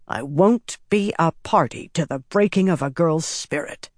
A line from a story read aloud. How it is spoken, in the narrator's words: Laris said sternly